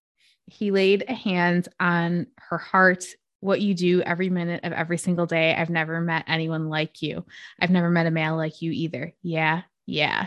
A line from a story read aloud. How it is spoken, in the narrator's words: said